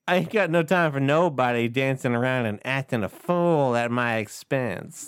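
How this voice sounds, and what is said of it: Impression of Tree Trunks character. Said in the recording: “what's your impression? ... Tree trunks. ... That's trunks.”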